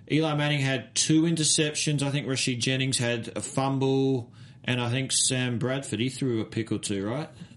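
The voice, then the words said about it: Speaks with a noticeable accent. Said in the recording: “because I have an accent”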